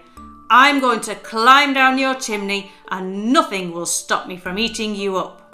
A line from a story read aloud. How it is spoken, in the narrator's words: shouted angrily